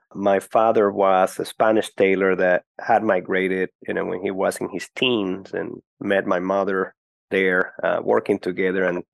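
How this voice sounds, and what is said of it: Venezuelan Spanish accent. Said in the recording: “You have that romantic sound to your voice ... the accent, you know, I grew up in Caracas. I was born and grew up in Caracas, Venezuela.”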